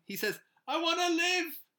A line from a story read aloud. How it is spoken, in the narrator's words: He shouts it